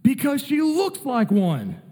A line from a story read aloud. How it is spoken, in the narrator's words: the crowd yells